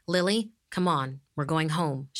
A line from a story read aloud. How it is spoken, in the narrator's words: said